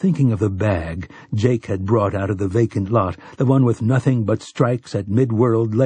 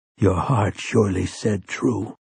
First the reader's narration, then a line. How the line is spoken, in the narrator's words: Roland whispered